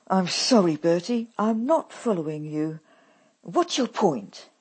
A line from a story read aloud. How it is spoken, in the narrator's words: I ask him impatiently